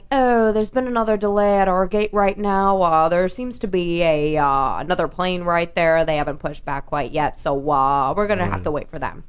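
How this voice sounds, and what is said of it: Airline pilot voice, Boston-like accent. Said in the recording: “what kind of accent was that? ... all pilots talk like that ... Sounds like a Boston accent ... Yeah, it is a little ... Well, it's Chicago-ish ... that controlled”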